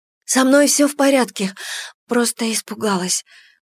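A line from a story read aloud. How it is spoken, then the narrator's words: Hoarse voice. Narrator (Russian): проговорила я охрипшим голосом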